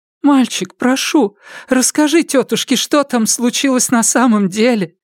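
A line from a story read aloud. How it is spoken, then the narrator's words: Pleading. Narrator (Russian): взмолилась она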